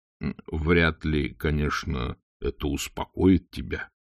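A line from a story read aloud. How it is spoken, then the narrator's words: Quiet speech. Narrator (Russian): тихо промолвил он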